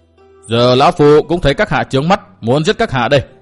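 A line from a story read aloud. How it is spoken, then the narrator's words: Cold, menacing. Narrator (Vietnamese): Mắt lão ánh lên vẻ sắc lạnh và hung tàn, lạnh lùng nói tiếp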